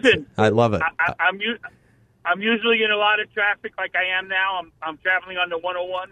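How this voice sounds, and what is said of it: Brooklyn accent. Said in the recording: “That's not a Scottsdale accent you're giving us here... No, I'm, I'm from Brooklyn... I love that accent”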